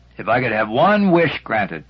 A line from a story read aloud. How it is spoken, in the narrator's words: he exclaimed